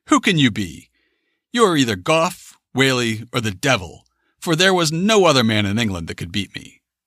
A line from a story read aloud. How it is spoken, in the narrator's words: the gentleman exclaimed